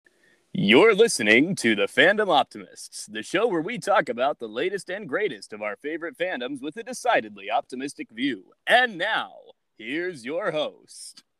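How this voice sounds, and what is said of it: Announcer-style radio voice. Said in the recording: “Radio Voice, who's definitely not just me”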